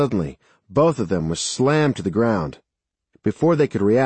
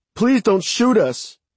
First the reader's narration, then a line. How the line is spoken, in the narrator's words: Mary shouted